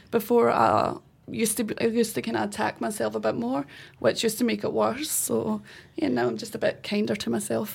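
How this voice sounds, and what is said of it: Scottish accent. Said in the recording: “Clearly you have an accent. ... Yes, so I'm from Scotland, yeah.”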